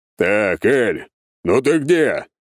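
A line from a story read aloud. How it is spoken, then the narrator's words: Boomed at full voice. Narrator (Russian): прогремел во все горло мой заместитель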